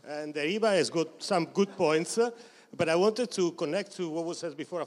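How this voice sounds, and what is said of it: Thick Italian accent. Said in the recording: “my thick Italian accent”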